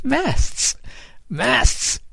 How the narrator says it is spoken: Kid cried, and he too burst out laughing

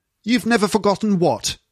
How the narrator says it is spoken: asked sternly

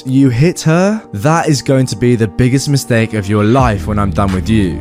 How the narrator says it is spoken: I say in a threatening voice

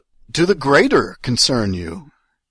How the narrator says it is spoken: I blurted out

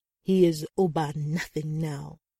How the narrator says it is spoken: Adegoke sneered

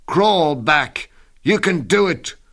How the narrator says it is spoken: shout

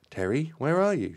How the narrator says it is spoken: cried out anxiously

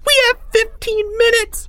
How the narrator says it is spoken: shrieked a third grader

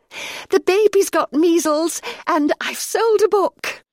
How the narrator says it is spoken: gasped

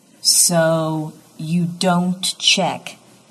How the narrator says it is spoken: Dix says slowly

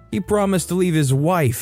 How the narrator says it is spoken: yelled and burst out crying again

